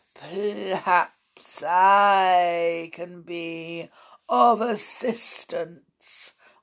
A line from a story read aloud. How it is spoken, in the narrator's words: wheezed a particularly oily voice